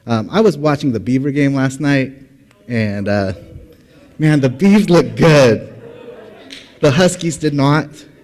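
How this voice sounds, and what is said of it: Cracky, strained voice. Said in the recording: “my voice is a little bit cracky or a little bit like I'm losing it here and there”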